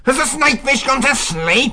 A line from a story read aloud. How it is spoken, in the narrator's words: He snarled